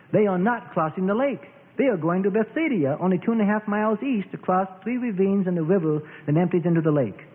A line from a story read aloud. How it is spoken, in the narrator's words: crowds watched the direction of sail and exclaimed